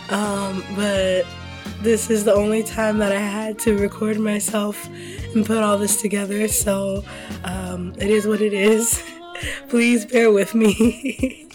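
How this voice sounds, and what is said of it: Strained, sick-sounding voice. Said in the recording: “my voice is a little compromised today ... I'm a little under the weather ... for the sake of my voice and your ears”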